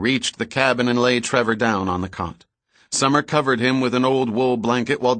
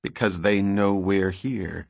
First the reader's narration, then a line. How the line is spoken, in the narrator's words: said quietly, a touch of anger in his voice